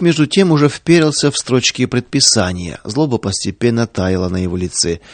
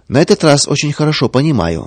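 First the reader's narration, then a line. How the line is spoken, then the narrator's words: Calm reply. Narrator (Russian): спокойно отвечал Павел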